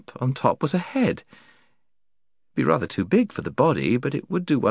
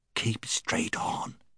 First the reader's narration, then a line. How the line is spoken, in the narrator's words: whispered Puddleglum